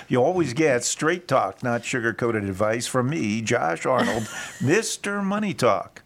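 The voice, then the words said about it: Announcer-style radio voice. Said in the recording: “Is that a good radio voice?”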